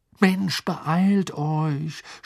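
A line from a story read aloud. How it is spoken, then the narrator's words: Groan. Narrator (German): stöhnte Ron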